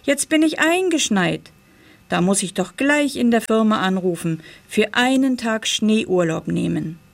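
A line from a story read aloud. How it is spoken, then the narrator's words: Cheerful call. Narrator (German): rief er fröhlich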